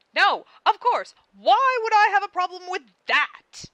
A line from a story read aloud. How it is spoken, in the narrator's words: Karkat yells at him